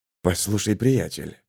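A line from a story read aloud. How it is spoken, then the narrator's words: Whisper. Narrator (Russian): шепнул Марк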